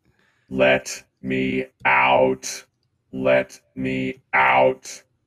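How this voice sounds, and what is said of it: Robotic voice. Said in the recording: “a freaking robot that is speaking in a freaking robot voice”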